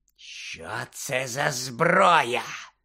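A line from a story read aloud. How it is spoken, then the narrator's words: Hoarse question. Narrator (Ukrainian): хрипло запитала Амбридж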